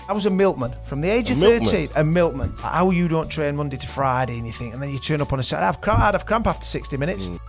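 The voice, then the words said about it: Yorkshire English accent. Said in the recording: “that Yorkshire accent is me”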